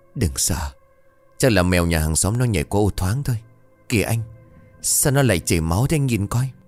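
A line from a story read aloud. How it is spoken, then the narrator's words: Trembling. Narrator (Vietnamese): Liễu bất giác run rẩy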